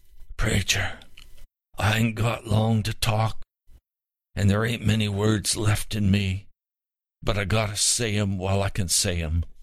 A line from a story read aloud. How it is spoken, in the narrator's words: With a wheezing voice, the old man answered